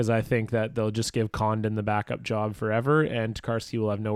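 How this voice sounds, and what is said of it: Usual voice. Nothing is said of it.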